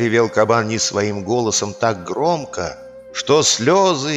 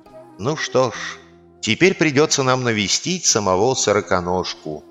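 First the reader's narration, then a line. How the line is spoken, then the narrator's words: Sighing boar. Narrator (Russian): вздохнул кабан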